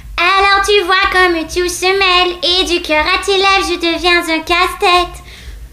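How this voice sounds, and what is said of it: Imitates another person's singing voice. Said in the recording (French): “Ta meilleure imitation? ... je suis bonne aussi pour cœur de pirate”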